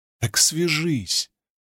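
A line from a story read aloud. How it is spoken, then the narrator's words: Pleading. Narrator (Russian): взмолилась Навани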